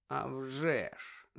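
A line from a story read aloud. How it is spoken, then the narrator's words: Muttering. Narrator (Ukrainian): Забурмотів Сіріус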